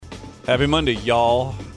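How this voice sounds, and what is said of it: Southern US accent. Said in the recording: “A little slip back into the southern accent”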